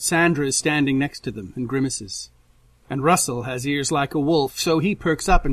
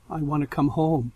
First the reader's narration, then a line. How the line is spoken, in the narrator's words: says, so quietly he can barely hear